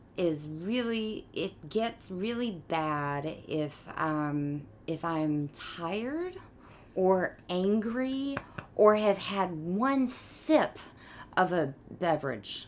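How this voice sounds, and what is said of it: Sweet southern drawl. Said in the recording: “sweet ... honey dripping ... Kind of a drawl ... A little bit of a drawl ... A little bit of a southern drawl ... Not a native New Yorker”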